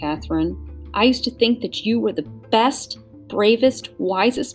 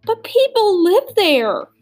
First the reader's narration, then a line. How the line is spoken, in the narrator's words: wailed Catherine